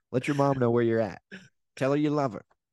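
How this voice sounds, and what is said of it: Imitates another person's voice. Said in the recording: “you did an impression of my mom's voice”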